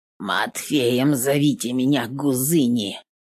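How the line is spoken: Creaky grumbling woman. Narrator (Russian): Проворчала третья женщина, и голос ее скрипел, точно полозья по снегу

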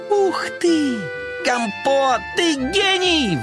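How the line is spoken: Surprised shout. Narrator (Russian): Карамелька удивленно закричала

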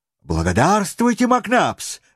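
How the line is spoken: Exclaimed. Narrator (Russian): воскликнул Паганель

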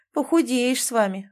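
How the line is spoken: Sighing. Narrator (Russian): вздохнула

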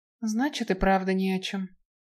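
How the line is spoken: Sigh. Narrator (Russian): вздохнула Наэль

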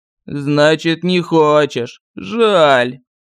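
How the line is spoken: Regretful drawl. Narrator (Russian): с сожалением протянул колдун

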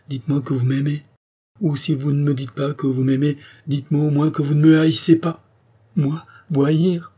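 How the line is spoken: Exclaimed. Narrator (French): s'écria André

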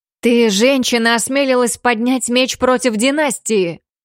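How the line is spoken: Screaming. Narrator (Russian): завопил принц

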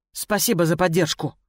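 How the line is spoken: Grumbling. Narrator (Russian): буркнула я

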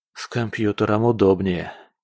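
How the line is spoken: Sighing. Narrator (Russian): вздохнул Олег

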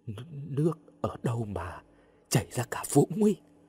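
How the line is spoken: Dazed, terrified trembling voice. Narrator (Vietnamese): như người mất hồn, kinh hãi, đáp bằng cái giọng run run

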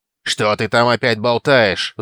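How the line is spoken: Roaring. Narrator (Russian): взревел Норт

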